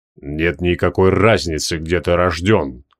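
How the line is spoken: Calm reply. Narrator (Russian): спокойно ответил Остромарий

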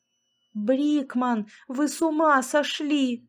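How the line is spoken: Yell. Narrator (Russian): заорал я

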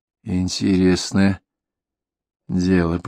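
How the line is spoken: Muttered. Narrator (Russian): пробормотал Нельсон

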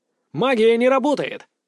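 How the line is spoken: Angry shout. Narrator (Russian): зло крикнул я

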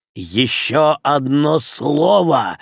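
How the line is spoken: Roar. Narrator (Russian): взревел комиссар

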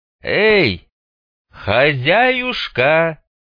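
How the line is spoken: Loud call. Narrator (Russian): громко позвал Мун

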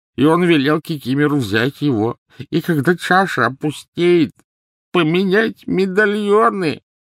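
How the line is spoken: Sobbing turning to grating. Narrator (Russian): Рыдания Кикимера обратились в подобие скрежета

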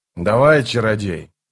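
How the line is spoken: Grumbling. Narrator (Russian): Скворец проворчал

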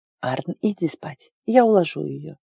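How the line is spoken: Quiet. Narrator (Russian): тихо сказала

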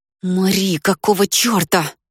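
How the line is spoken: Hiss. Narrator (Russian): прошипел он

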